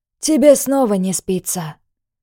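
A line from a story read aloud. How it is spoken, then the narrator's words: Softer, less formal. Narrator (Russian): Уже более мягко, переходя с официального обращения на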